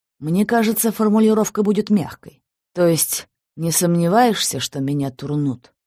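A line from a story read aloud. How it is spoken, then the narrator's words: Sighing. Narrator (Russian): вздохнул Алексуков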